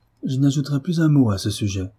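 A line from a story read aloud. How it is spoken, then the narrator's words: Dignified and firm. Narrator (French): répondit Marie d'un ton digne et ferme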